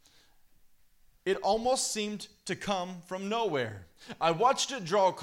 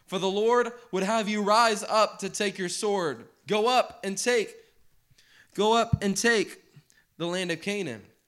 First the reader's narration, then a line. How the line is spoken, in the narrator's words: I called out to her once more